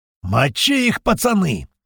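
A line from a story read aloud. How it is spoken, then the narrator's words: Deafening roar. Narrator (Russian): взревел Апрель так, что я шахрынел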